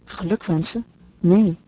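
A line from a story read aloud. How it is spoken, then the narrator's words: Quick, soft reply. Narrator (Dutch): hernam zij ras en zacht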